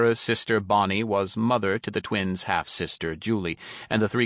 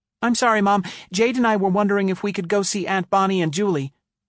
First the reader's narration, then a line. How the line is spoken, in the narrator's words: she blurted out quickly